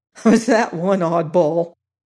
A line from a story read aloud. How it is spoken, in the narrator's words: exclaimed